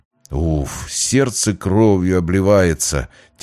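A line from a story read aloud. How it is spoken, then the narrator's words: Heavy sigh. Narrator (Russian): тяжко вздохнул Путилин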